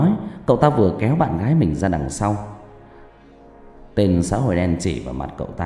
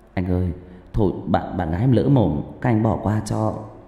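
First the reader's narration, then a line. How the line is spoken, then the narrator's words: Young man, trembling voice. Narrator (Vietnamese): Người thanh niên giọng run rẩy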